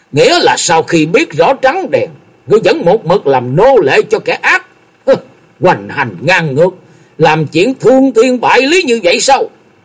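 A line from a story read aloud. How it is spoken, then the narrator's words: Loud angry shout. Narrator (Vietnamese): Lâm Tường trợn tròn mắt, cao giọng quát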